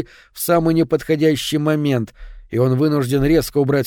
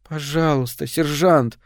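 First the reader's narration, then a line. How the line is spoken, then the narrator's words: Whimpering plea. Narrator (Russian): скулит она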